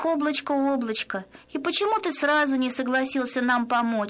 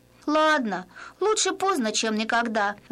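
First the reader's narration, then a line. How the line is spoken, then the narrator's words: Sighed. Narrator (Russian): вздохнула она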